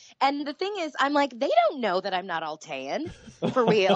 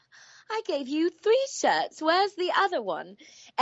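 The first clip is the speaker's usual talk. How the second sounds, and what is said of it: Put-on character voice accent. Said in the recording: “They don't know that this accent isn't real.”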